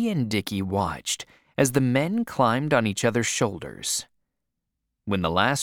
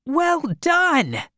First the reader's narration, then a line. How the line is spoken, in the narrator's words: he shouted